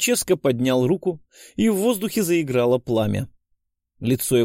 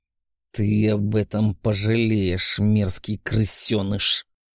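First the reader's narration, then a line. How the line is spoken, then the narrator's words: Hiss. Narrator (Russian): прошипел князь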